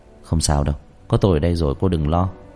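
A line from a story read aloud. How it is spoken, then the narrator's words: Soft, comforting voice. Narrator (Vietnamese): khẽ an ủi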